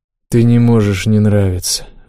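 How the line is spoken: Sighing. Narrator (Russian): вздохнул я

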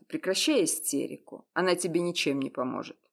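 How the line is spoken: Sharp rebuke. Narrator (Russian): резко осадил ее

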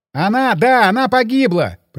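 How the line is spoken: Shouting. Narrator (Russian): прокричал я

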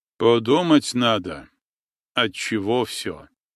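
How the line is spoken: Calm reply. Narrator (Russian): спокойно отозвался отец Амвросий

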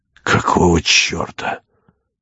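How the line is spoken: Ashamed muttering. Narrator (Russian): бормотал он, как будто ему было стыдно или тяжело

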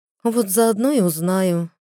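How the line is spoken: Sighing, young woman. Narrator (Russian): вздохнула девушка

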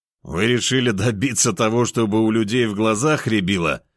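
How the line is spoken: Laughing. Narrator (Russian): Рассмеялся я

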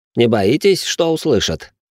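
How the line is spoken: Snorting. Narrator (Russian): хмыкнул Ричард

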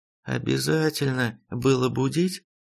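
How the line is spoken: Sleepy mumble. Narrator (Russian): сонно пробурчала будущий паладин света, доблестная леди Мария

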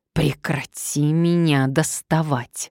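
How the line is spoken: Hiss. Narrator (Russian): зашипела она

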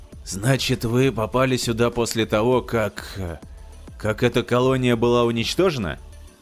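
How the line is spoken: Hoarse question. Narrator (Russian): хрипло спросил Паттерсон

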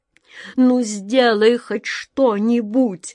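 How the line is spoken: King's pleading moan. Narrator (Russian): уже с мольбой простонал король

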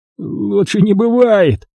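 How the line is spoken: Grumbled mutter. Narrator (Russian): буркнул хозяин

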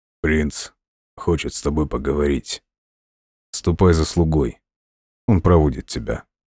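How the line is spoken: Quiet. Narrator (Russian): тихо сказал

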